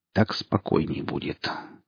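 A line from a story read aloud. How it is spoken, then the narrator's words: Quiet. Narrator (Russian): тихо сказал Гриф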